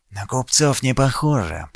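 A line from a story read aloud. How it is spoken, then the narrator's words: Whisper. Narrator (Russian): прошептал Кирин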